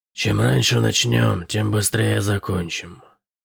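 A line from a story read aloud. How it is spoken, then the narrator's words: Pained grumble. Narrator (Russian): проворчал Шип, морщась от каждого шага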